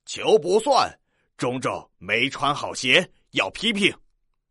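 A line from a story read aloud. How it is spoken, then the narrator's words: Loud. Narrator (Chinese): 裁判员王老师大声的说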